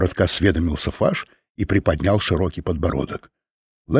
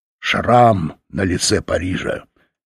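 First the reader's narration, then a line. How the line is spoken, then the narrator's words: Angry grumble. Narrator (Russian): сердито проворчал Фаш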